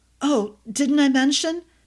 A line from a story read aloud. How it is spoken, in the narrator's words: S gasped, feeling as if her head wanted to separate from her shoulders